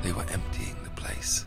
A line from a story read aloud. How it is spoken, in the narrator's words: Capone said quietly